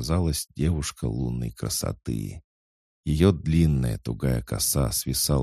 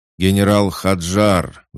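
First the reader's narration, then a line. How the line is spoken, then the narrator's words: Roar. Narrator (Russian): взревел Неро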